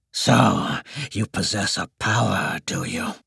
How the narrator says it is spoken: a raspy voice asked

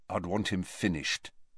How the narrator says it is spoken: said Harry quietly

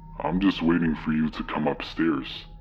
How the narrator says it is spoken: As clear as day, in a dark, almost demonic voice, I heard

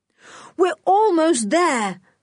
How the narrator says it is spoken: cried Julian

